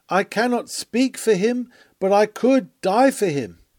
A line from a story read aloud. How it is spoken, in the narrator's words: bursting through all bonds, she cried out